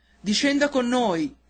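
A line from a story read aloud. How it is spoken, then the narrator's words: Shouted from below. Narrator (Italian): gridarono di sotto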